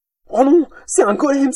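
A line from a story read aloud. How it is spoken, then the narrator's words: Exclaimed. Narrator (French): s'écria Wally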